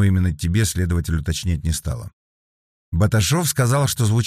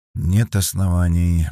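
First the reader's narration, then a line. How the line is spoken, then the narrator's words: Grumbling mutter. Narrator (Russian): буркнул Вербин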